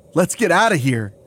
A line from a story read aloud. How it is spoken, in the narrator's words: I yell to the others